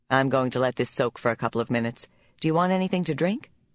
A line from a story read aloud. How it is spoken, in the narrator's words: Teresa asked